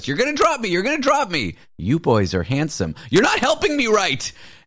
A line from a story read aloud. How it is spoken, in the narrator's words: she's just screaming at us